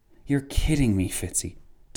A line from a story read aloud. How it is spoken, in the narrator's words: Tancred whispered